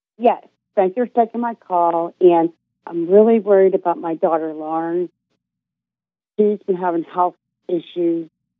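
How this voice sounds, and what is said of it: Pittsburgh accent. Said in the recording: “Pittsburgh, I can tell. ... It's the accent.”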